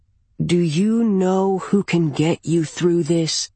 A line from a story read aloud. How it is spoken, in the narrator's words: she asks, purring almost like one of her cats